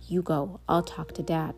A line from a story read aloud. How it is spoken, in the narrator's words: She whispered